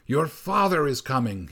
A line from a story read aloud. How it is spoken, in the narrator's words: he cried